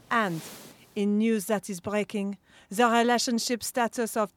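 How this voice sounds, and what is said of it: Flirty French-accented character voice. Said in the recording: “Naughty French au pair”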